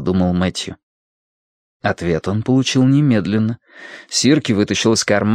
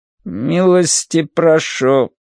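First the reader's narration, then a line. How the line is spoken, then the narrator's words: Tinny creaking mechanical voice. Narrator (Russian): заговорил автомат жестяным голосом с некоторой примесью скрипа и жужжания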